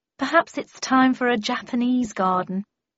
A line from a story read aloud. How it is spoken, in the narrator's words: sighed my mother